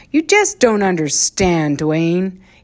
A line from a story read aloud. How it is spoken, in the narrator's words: he said gloomily